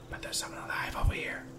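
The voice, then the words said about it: Whispering. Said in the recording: “I don't know why I'm whispering”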